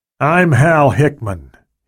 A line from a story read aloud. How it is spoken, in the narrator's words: said